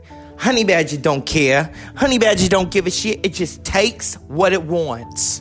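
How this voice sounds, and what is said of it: Put-on New York accent. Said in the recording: “Now we can say it with the New York accent.”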